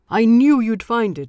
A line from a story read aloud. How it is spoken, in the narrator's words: shouted